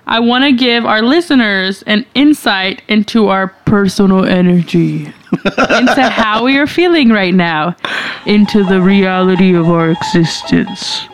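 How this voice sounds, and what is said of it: Imitates another person's voice. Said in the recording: “She sounds like she's trying to do my voice.”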